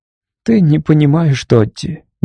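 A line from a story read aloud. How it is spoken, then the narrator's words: Soft. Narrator (Russian): мягко сказала она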